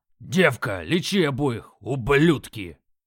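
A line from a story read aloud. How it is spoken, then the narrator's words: Growling. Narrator (Russian): Прорычал Крак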